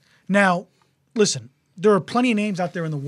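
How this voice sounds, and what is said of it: Usual voice. Nothing is said of it.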